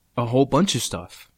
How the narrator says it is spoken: I said

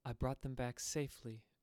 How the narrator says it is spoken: she said gently as she passed

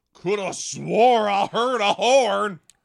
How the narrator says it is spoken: grunted Mr

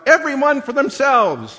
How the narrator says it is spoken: The Congregationalists shouted out

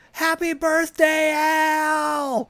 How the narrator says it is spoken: yells out

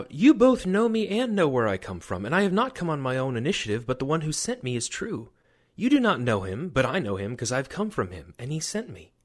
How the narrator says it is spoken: Jesus cried out

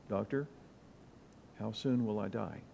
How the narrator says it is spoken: calmly, but with a catch in his throat, asked

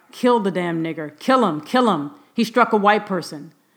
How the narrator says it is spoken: some cried

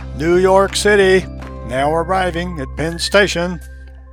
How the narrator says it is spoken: the conductor called out

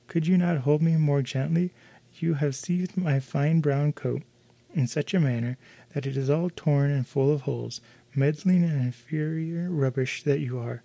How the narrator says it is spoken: As soon as the dwarf had recovered from his fright, he exclaimed in his squeaky voice

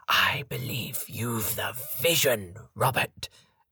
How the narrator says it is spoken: declared Gabriel Sage in an extravagant whisper

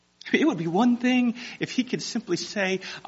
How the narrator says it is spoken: I cried to the Lord

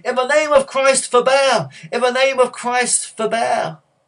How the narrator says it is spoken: shouting

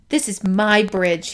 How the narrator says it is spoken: said in a loud voice

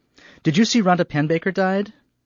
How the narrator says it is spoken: she began a bit too brightly

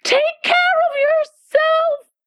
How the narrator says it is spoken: screamed the White Queen

